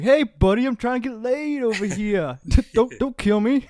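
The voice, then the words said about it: Put-on New York Canadian accent. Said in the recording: “Is that a New York Canadian accent?”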